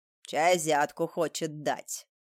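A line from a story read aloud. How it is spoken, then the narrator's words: Snorting. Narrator (Russian): фыркнул городничий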